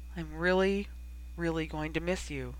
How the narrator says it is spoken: said softly

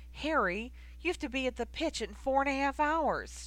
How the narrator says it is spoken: exclaimed

